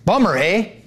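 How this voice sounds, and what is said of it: Put-on Canadian accent. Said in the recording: “my best Canada impersonation”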